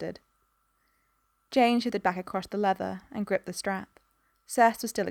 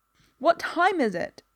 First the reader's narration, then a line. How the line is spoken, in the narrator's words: she shouted at Dot